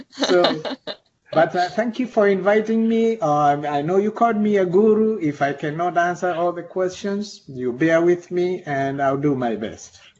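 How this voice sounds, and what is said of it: Thick southern Missouri accent. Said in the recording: “this Missourian accent ... Such a thick southern Missouri accent”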